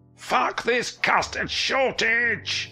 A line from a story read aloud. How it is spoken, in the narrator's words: He screamed, and it echoed through the downtown streets